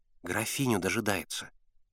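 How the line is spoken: Quiet. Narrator (Russian): тихо сказал Славка

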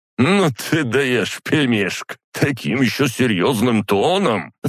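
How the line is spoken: Drawling after laughing. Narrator (Russian): Отсмеявшись, протянул он

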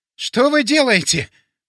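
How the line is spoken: Forced out. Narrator (Russian): выдавил он

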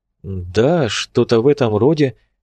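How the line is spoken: Uncertain agreement. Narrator (Russian): неуверенно согласился он

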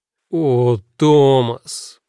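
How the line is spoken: Moaning. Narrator (Russian): простонал Чарли

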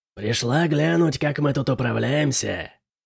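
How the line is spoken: Low grating voice. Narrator (Russian): сказал Жожо низким скрежещущим голосом

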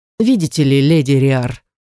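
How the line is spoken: Heavy sigh. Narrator (Russian): ректор тяжело вздохнул

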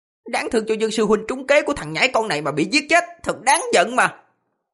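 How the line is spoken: Hissing anger. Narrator (Vietnamese): Một người mở miệng rít lên, nói

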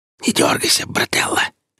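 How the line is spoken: Hoarse strangled whistling whisper. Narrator (Russian): послышался уже из темноты сиплый сдавленный шепот со свистящей ноткой

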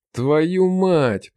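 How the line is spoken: Groaned. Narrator (Russian): простонал

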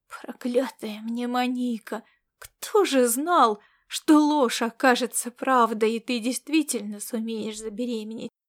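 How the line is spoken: Whisper. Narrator (Russian): прошептал он

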